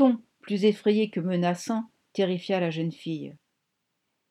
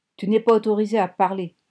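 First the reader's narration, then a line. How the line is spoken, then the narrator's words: Harsh barking tone. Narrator (French): aboya George Monroe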